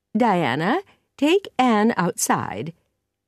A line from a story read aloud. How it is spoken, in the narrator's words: said Mrs